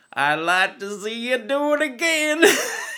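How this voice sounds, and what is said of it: Poor put-on American accent. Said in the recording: “Sorry, bad American accent.”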